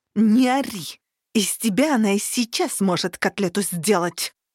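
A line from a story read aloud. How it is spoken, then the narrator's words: Hissed with restrained fury. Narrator (Russian): С трудом сдерживая бешенство, прошипела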